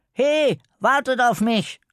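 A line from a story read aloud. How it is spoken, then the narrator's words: Calling from behind. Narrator (German): lief ganz hinten und rief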